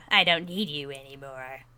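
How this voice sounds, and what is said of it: Impression of Captain Janeway. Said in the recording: “That was a pretty good impression. ... Awful. I need to work on my Janeway impression.”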